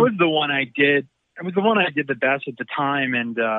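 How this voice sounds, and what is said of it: Usual voice. Nothing is said of it.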